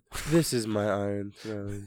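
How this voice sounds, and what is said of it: Impression of a TV character. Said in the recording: “That's a pretty good impression. ... That is pretty good.”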